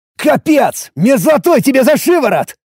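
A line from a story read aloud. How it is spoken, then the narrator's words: Shouting. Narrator (Russian): закричал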